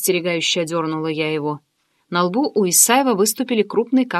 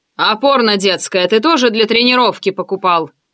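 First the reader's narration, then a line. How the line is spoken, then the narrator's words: Rather rude, from corner. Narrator (Russian): Довольно грубо поинтересовался из своего угла Грязнов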